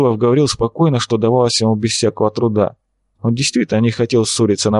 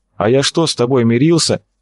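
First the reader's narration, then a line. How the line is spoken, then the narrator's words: Snapped. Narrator (Russian): огрызнулся Степа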